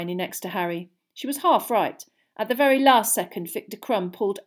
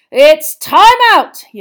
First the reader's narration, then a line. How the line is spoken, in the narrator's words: yelled Bagman's voice